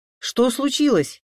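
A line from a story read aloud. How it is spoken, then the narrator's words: Shouted. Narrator (Russian): крикнул Саша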